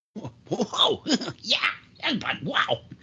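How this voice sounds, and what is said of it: Poor cartoon character impression. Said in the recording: “that was my Beavis impression. It was pretty terrible.”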